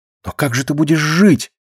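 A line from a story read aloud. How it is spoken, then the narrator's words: Desperate whisper. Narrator (Russian): в отчаянии прошептала Катя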